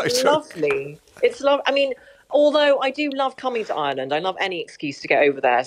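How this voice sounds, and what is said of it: English accent. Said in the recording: “as you can hear from my accent, I was born in England”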